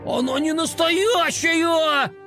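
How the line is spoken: Indignant shout. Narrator (Russian): Возмущенно закричал он

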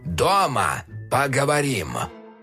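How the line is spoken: Grim old man, clenched teeth. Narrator (Russian): Мрачно процедил дед

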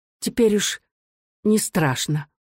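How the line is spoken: Calm, smiling mother. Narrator (Russian): Спокойно улыбаясь, мать ответила

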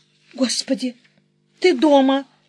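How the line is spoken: Faltering babble. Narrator (Russian): пролепетала я

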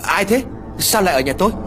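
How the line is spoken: Woman shouting loudly. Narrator (Vietnamese): Cô liền hét lớn

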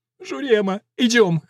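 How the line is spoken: Whimpering dwarf. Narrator (Russian): хныкал карлик

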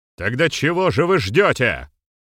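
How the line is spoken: Thundering voice. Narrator (Russian): Прогремел Глишич

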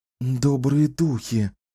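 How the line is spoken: Alarmed breathy. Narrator (Russian): встревоженно выдохнула Кэлен

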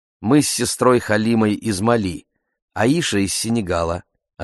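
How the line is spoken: Plain. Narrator (Russian): ответила Мариама

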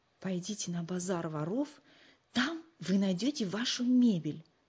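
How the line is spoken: Low voice. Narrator (Russian): вполголоса сообщил Нату

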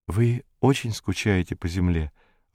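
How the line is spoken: Timid question. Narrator (Russian): робко спросила Зойка

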